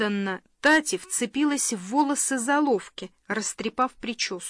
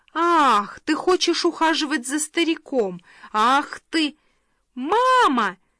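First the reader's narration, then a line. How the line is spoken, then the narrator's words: Shout. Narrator (Russian): крикнула Фелиция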